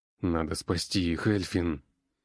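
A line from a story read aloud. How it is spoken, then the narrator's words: Gritted through clenched teeth. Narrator (Russian): Стиснув зубы, процедил Горе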